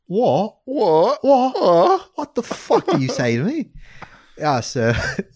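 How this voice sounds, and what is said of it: Put-on British accent. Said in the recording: “your British accent ... Why don't you tell your story in your whole British accent? ... You know what my favorite thing to say in a British accent is?”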